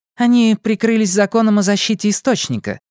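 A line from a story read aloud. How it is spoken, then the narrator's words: Irritated. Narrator (Russian): раздраженно сказала Голли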